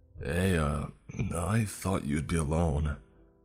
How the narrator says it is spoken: he slurred

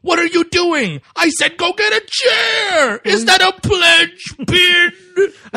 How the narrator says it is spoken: yelled at me

